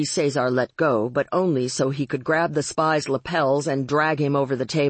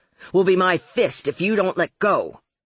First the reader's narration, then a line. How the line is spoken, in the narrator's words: Marlowe snapped